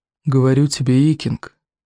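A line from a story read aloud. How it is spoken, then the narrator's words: Quavering, coaxing. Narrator (Russian): увещевал Один Клык дребезжащим голосом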